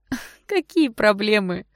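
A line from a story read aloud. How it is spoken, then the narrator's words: Scoffing snort. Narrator (Russian): хмыкнула блондинка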